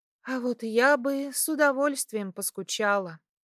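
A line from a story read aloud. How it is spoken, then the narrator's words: Sighing. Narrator (Russian): вздохнула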